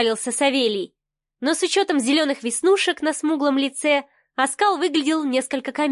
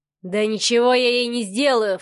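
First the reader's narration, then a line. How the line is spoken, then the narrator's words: Snorting. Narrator (Russian): фыркнул брат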